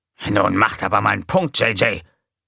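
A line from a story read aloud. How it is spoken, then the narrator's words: Hissing angrily. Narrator (German): fauchte Gonko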